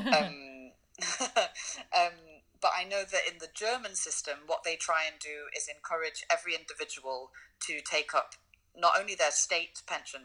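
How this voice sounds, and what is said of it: British accent. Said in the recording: “I haven't lived in the UK for over 8 years, so I don't know the UK system anymore, even though my accent might sound like I should.”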